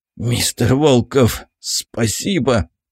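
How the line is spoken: Dazed hoarse rasp. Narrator (Russian): прохрипел врач экспедиции, едва осознав, что он жив

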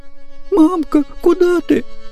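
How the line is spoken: Sleepy whimper. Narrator (Russian): захныкал с просонья Борька

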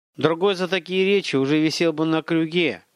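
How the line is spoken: Purring. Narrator (Russian): промурлыкал бандит

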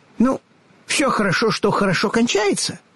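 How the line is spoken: Cheerful agreement. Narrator (Russian): весело согласился Татошка

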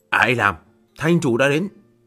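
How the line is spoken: Woman's loud shout. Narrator (Vietnamese): nữ nhân áo trắng quát lớn

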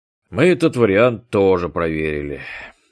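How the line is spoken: Breathless exhale. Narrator (Russian): выдохнул Басенко

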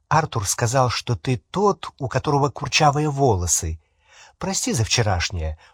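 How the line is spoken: Whispered addition. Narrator (Russian): шепотом прибавила она

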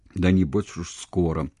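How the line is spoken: Gloomy reply. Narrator (Russian): угрюмым голосом ответил Богословский

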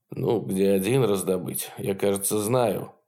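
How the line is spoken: Gloomy mutter. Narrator (Russian): угрюмо пробормотал Капарелли

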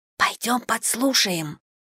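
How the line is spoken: Sly whisper in ear. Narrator (Russian): шепнула мне на ухо хитрюга Лиз

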